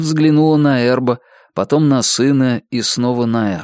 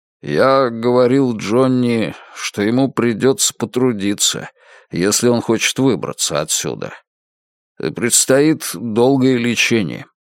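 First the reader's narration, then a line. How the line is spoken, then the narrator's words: Plain. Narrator (Russian): сказал Эрб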